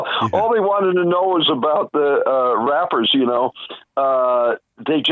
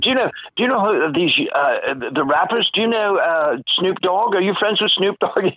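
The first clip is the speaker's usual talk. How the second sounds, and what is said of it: Attempted English accent. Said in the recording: “I can't do an English accent”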